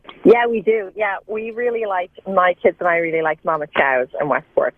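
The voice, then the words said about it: Slight Irish accent. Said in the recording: “I detect an Irish accent. Are you coming to us by way of Dublin? ... A little bit of an Irish accent. ... I hear it, too. ... I didn't hear it at first. There it is.”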